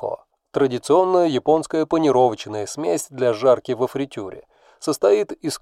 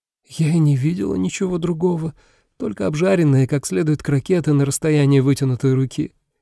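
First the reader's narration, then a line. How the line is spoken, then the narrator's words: Giggled. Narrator (Russian): хихикнула Миюки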